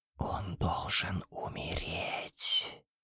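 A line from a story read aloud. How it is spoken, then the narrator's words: Barely audible whisper. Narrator (Russian): шепот на грани слышимости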